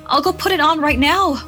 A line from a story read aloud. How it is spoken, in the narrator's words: Myra cried